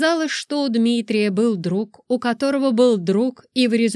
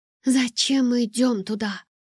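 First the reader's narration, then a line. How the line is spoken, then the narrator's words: Whispering. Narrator (Russian): прошептала я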